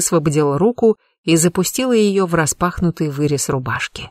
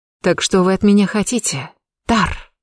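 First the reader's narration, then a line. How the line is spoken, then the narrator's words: Breathed against his lips. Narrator (Russian): Выдохнула прямо в его губы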